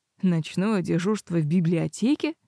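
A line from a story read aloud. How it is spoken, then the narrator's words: Snorting. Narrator (Russian): хмыкнул Блэс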